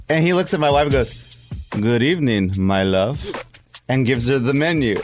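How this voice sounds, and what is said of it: Imitated Latin-accented waiter voice. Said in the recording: “He's like a Latin guy. You know, he's got an accent. ... I don't talk like the way he did. He talked like this.”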